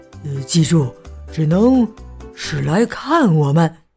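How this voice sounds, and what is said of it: Nervous, quiet, laughing voice. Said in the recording (Chinese): “有点紧张的小声笑着说”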